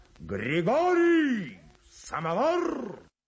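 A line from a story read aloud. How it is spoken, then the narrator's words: Shouting at full voice. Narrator (Russian): кто-то кричал во все горло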